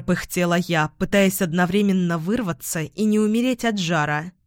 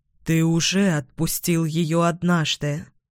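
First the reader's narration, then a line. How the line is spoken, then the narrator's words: Muffled plea. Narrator (Russian): глухо попросила Амая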